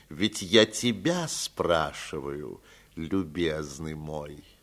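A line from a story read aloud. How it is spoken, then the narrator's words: Calm. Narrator (Russian): спокойно продолжал Аркадий Павлович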